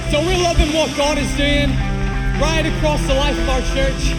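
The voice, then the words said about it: Northern Irish accent. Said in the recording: “where my accent's from. I'm originally Irish, born in Northern Ireland”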